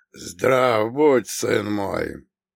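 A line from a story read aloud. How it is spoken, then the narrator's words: Old man's creaky voice. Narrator (Russian): проскрипел старик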